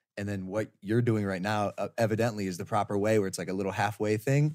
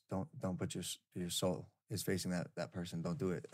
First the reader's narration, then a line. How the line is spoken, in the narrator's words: whispers to me